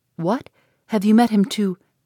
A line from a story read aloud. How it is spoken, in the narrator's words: Eleanor, startled by his manner, looked at him anxiously, saying